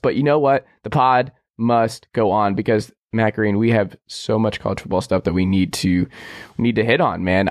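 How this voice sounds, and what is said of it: Sick, rough-sounding voice. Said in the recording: “you sound terrible.”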